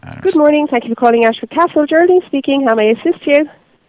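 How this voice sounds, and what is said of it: Irish accent. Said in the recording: “Irish accent.”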